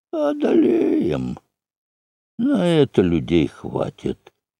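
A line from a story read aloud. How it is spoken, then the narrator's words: Gloomy hoarse voice. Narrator (Russian): Один мрачный голос из рядов прохрипел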